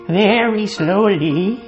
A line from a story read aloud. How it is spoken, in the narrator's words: would answer in a crazy voice